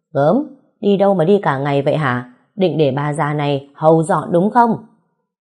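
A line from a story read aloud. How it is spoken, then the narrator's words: Old woman, loud complaint. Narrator (Vietnamese): Bà Thao lớn tiếng nói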